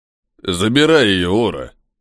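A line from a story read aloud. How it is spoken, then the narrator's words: Deep bass voice. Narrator (Russian): пробасил один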